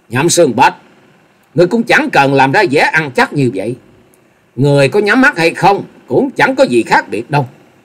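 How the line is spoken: Loud mocking laughter. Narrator (Vietnamese): Dịch Hương Trúc cười lớn, giọng đầy mỉa mai nói

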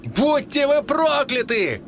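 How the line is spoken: Shouted. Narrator (Russian): прокричал Эрл

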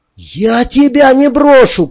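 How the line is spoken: Shout. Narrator (Russian): крикнул Андрей

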